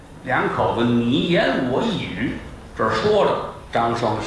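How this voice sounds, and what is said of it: Usual voice. Nothing is said of it.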